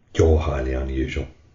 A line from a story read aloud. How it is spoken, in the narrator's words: muttered Sita